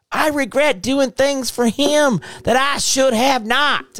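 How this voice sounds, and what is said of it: Put-on southern plantation accent. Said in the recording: “I'm using my southern plantation accent”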